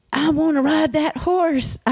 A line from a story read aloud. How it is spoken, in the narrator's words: I yelled